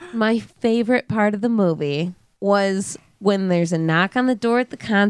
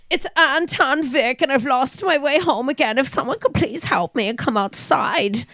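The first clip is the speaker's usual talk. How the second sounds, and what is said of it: Bad put-on German accent. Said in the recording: “I don't know that he sounded like that... it was a really bad German accent.”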